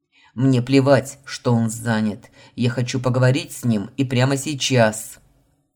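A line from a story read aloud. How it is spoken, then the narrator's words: Bark. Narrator (Russian): Рявкнул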